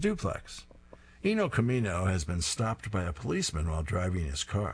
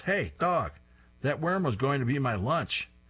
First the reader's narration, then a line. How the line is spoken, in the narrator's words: a bird on a nearby branch shouts